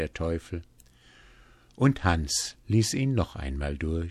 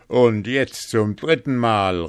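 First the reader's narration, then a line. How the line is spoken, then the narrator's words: Devil calling out. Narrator (German): rief der Teufel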